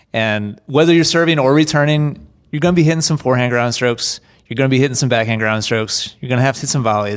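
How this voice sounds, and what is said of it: Slight country twang. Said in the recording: “You got a little country twang in there.”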